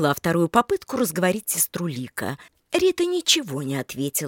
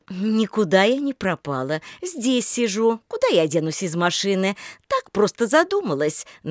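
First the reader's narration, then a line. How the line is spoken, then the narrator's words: Forced cheerful reply. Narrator (Russian): нарочито-бодро ответила Рита Татьяне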